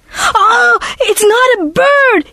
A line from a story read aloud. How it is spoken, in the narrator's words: he screamed